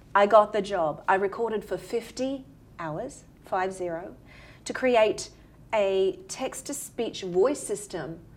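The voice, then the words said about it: Australian female accent. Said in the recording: “as you can tell from my accent, from Australia”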